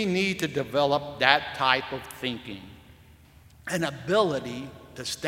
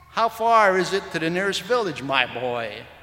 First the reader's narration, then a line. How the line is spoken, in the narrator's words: asked the hunter